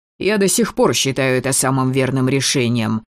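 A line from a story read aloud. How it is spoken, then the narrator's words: Snapped back. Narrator (Russian): огрызнулся Маркус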